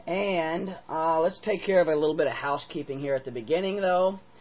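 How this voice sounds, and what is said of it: Voice slightly off, unwell. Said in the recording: “my voice is a little off today. I've been sick.”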